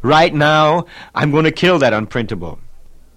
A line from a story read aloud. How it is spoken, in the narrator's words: his voice rose again to repeat